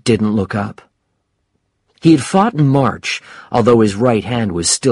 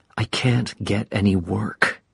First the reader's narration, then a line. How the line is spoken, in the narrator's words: said Jim quietly